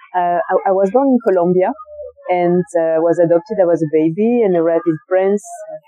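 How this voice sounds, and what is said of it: French accent. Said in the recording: “I'm French... Maybe you could notice it with my accent.”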